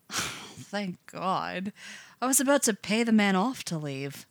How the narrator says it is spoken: he'll sigh and announce

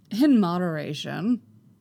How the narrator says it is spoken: Qui-Gon chuckles

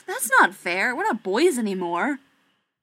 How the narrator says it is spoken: Keeley scoffed and said

